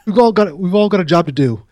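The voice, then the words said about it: Imitated English or Australian accent. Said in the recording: “He's from maybe English or something. ... Maybe he's Australian. I don't know. He has an accent.”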